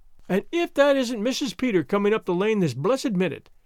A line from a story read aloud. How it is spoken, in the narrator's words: exclaimed Mrs